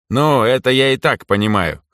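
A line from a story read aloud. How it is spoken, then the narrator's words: Snorting. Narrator (Russian): хмыкнул Эрнеста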